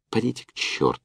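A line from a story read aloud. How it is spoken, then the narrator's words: Angry. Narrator (Russian): сердито сказала Лена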